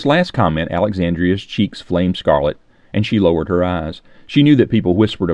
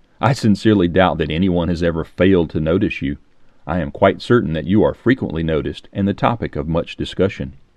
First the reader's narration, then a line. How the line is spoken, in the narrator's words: chuckled the stranger